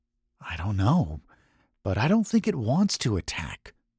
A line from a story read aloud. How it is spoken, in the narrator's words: Andrew also whispered